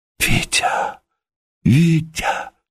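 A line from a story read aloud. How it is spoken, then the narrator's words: Sobbing whisper. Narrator (Russian): Шепотом звала она, трясясь от рыданий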